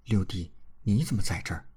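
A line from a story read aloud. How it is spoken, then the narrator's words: Gentle question. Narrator (Chinese): 李文君柔声问道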